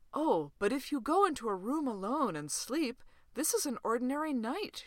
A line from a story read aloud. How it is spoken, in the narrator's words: she said earnestly